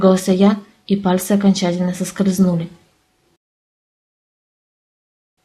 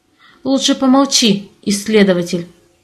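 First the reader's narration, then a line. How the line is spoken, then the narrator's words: Growled. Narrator (Russian): рыкнул я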